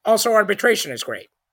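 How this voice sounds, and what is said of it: Imitates another person's voice. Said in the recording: “That's my Neil Gorsuch impression.”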